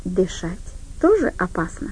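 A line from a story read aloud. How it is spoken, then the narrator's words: Calm reply. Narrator (Russian): ответила она спокойно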